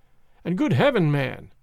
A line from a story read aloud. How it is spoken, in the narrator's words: cried I